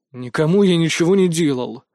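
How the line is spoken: Angry reply. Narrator (Russian): злобно ответил я

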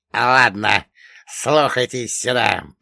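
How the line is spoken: Hissed. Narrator (Russian): прошипел Черномор

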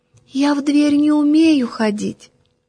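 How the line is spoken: Very thin little voice. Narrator (Russian): она мне тоненьким-тоненьким голоском отвечает

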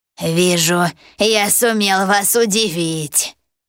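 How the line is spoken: Loud laughter. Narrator (Russian): расхохотался один из пожирателей

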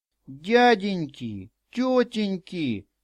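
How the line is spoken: Tearful pleading. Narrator (Russian): слезно взмолился он

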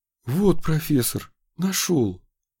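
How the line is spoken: Breathless exhale. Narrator (Russian): выдохнул он

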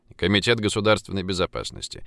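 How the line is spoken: Dry, curt. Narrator (Russian): сухо проинформировал Пургин

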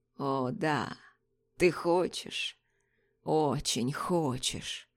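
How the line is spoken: Hoarse, moaning man. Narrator (Russian): Выдав стон, мужчина хрипло произнес

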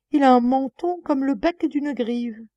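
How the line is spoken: Laughing exclamation. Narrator (French): s'écria-t-elle en riant

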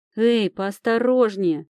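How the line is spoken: Grumbling. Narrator (Russian): проворчала

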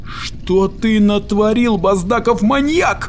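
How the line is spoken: Yelling. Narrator (Russian): завопил Эперлиант

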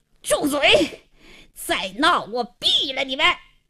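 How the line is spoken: Hoarse, angry shout. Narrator (Chinese): 王经理晕头转向，气得嘶哑着嗓子喝道

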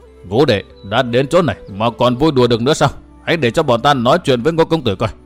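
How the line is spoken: Stern. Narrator (Vietnamese): Một giọng nói không kém phần nghiêm nghị cất lên

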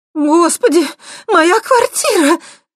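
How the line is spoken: Frantic scream, abruptly cut off. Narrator (Russian): истошно завопила мать Светки, увидев дымящуюся дыру в стене второго этажа, но тут же осеклась

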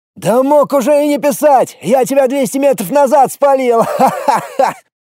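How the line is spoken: Joyful madman yelling. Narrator (Russian): Заорал радостный шизоид

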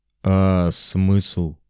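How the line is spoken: Grumbling. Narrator (Russian): буркнул Астарот

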